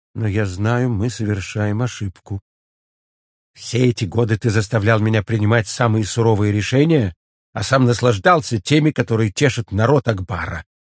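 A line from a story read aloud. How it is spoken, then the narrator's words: Quiet reply. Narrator (Russian): столь же тихо ответил жрец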